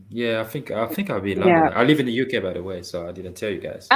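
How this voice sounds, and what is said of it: British accent. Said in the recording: “I can tell by your accent.”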